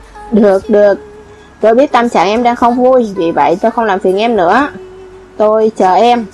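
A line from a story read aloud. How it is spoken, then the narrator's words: Cold. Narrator (Vietnamese): Lạc Chanh cất giọng lạnh lùng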